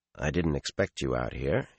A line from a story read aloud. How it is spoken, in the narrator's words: he said in a low voice